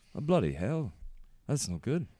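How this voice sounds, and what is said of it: Put-on British accent. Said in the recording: “British accents.”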